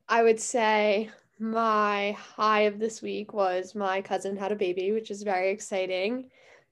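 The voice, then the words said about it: Congested, stuffy-nosed voice. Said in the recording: “I know I sound terrible because I'm allergic to dogs ... my nose is, like, incredibly stuffed”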